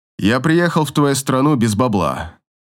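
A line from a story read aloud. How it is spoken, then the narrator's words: Plain. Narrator (Russian): говорит Тимур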